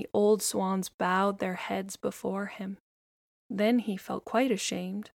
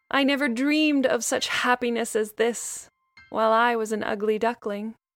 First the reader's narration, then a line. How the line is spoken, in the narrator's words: cried joyfully from the depths of his heart